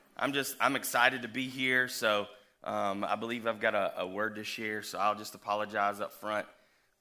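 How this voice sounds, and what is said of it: Weird-sounding, sick voice. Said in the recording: “my voice sounds a little weird this morning. I'm fighting the funk ... a cough drop in my mouth”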